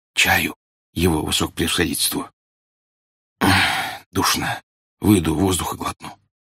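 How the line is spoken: Whisper. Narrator (Russian): шепотом сказал

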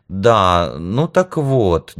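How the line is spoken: Uncertain. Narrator (Russian): неуверенно продолжила Тайша

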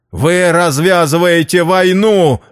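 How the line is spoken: Yell. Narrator (Russian): заорал я

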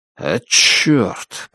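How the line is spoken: Muttering. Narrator (Russian): пробормотал Джо

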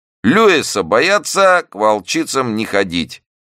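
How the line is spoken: Loud. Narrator (Russian): громко сказал он

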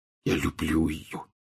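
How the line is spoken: Barely audible. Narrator (Russian): чуть слышно повторил Рон

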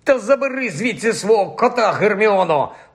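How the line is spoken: Angry grumble. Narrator (Ukrainian): буркнув розлючений Рон

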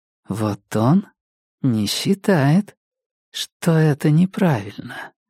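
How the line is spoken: Soft, smiling. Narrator (Russian): говорит она тихонько, улыбаясь

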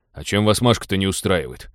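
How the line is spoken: Embarrassed grumble. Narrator (Russian): смущенно проворчал Теодор

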